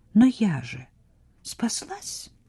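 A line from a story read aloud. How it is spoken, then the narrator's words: Quiet woman's voice. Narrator (Russian): тихо сказала она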